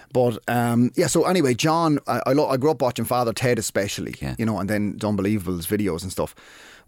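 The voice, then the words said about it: Waterford Irish accent. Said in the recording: “See the way he said, I love the way he said himself ... that's real Waterford ... there's no L ... It's just the accent, man ... it's a beautiful accent, though”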